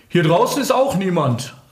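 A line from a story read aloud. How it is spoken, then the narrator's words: Calling from outside inward. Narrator (German): rief Ferdi von der Terrasse nach drinnen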